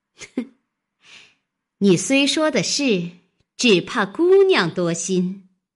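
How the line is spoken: Sneering. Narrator (Chinese): 金贵冷笑道

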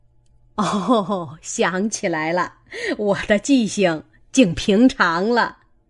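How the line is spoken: Laughing. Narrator (Chinese): 贾母笑道

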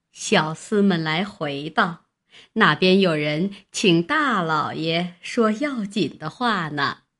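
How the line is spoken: Old woman relaying message. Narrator (Chinese): 外面老婆子传进来说

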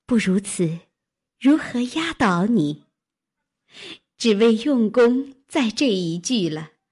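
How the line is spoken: Laughing speech. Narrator (Chinese): 黛玉笑道

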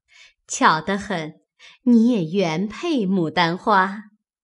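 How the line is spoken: Group, laughing. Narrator (Chinese): 众人都笑说

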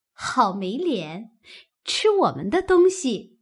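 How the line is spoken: Laughing. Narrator (Chinese): 鸳鸯笑道

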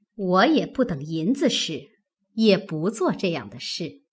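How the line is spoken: Laughing. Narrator (Chinese): 凤姐笑道

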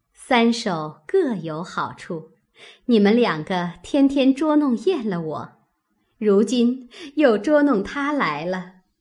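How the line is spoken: Laughing. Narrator (Chinese): 宝钗笑道

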